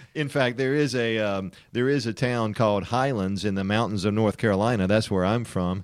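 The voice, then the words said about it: Western North Carolina mountain accent. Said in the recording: “I'm from Western North Carolina, folks. That's why I talk like a hick sometimes, and you probably can't understand my accent because I'm a redneck ... hillbillies up in the mountains”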